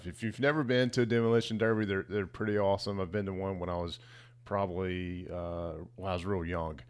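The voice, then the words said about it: Tired-sounding voice. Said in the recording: “you can hear the tiredness in my voice”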